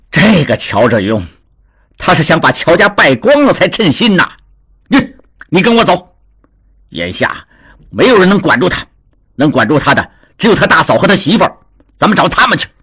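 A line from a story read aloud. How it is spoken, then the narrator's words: Angry. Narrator (Chinese): 达庆怒道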